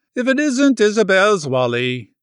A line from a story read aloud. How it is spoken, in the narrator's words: she exclaimed